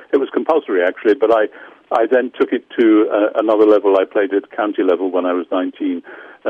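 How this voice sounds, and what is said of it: London English accent. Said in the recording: “your beautiful accent puts my Long Island accent to shame. You know, your London accent.”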